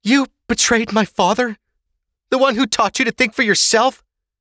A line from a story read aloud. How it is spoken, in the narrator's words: Ava gasped